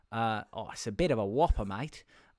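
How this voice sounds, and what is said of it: Put-on Australian accent. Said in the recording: “He was Australian. I didn't just give him a new accent for this story ... I can only do the first sentence in his accent.”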